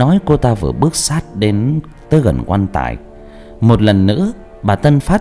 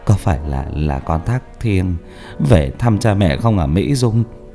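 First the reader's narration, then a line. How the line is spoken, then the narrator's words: Calm, soft call. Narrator (Vietnamese): Ông Tân Phát bình tĩnh hơn, vừa khe khẽ gọi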